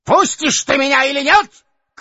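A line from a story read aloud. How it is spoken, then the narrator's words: Sudden piercing shout. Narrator (Russian): крикнул он вдруг пронзительным голосом, точно кричал в поле на ямщика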